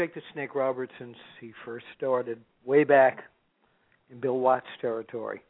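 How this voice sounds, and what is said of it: Usual voice. Nothing is said of it.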